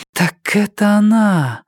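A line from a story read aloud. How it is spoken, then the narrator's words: Breathed out, a door. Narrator (Russian): выдохнула дверь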